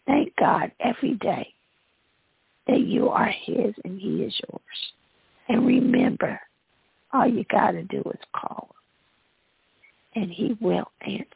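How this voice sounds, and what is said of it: Hoarse voice. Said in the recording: “I'm getting hoarse”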